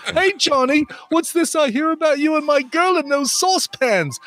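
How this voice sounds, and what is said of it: Wavering Cockney-Australian put-on accent. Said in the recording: “That accent wavered back and forth a little bit. It was Cockney for a second. ... A little British, a little Australian.”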